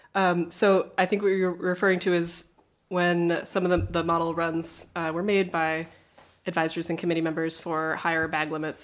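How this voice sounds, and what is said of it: Hoarse, fading voice from a cold. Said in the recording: “I'm recovering from a cold and losing my voice a little bit.”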